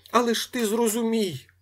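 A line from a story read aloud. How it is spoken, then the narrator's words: Shouted. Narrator (Ukrainian): закричав Коля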